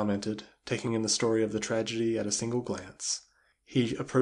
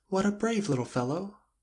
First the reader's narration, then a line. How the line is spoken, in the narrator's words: cried Jane